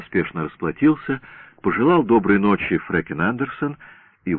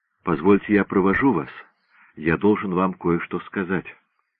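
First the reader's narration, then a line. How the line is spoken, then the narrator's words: Whisper. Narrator (Russian): шепнул ей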